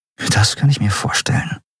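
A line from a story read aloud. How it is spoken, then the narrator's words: Murmured. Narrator (German): murmelte Andriel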